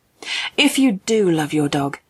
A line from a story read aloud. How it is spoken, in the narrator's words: spoke kindly to the little girl